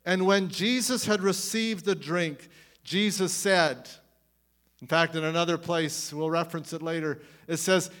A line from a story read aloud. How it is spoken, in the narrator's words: he cried out in a loud voice